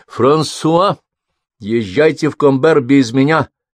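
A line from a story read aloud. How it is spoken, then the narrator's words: Shouted. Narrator (Russian): крикнула она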